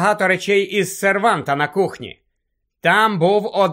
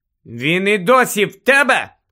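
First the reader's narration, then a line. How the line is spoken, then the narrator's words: Shout. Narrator (Ukrainian): крикнула Герміона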